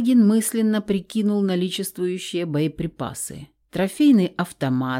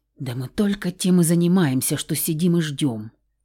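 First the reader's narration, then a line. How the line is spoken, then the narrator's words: Muttered grumble. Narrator (Russian): проворчала Ханна себе под нос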